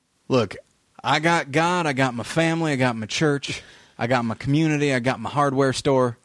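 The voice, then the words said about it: Put-on Southern US accent. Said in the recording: “I'm starting to go into a Southern yeah. accent instinctively ... I do instinctively right. go into that accent.”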